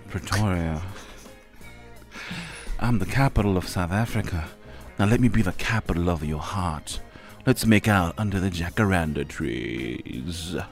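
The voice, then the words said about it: Put-on sexy seductive voice. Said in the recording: “I'm going to use my sexy voice.”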